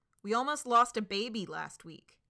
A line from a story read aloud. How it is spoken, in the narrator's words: someone shouts from the crowd